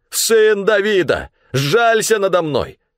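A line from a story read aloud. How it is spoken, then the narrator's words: Blind man shouting louder. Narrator (Russian): слепой кричал еще громче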